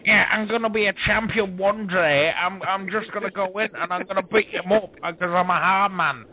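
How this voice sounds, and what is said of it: Mocking exaggerated UK accent. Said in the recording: “his annoying voice ... a mocking UK accent”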